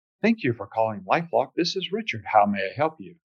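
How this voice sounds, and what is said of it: Put-on polished radio announcer voice. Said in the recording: “I would do what I called radio voice”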